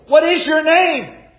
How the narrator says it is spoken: they begged Him

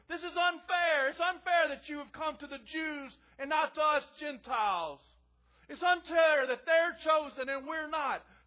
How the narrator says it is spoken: does not scream and cry and say

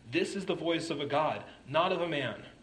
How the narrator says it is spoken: the people started shouting

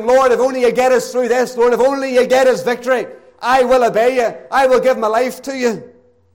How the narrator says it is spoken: they cried submissively, promising

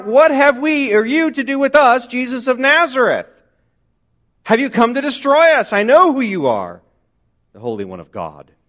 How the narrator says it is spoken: he screams out

